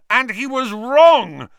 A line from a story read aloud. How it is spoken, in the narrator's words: Harry yelled